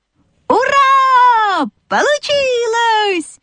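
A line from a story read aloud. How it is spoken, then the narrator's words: Animals shouting in chorus. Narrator (Russian): хором закричали лошадка, овечка и козлята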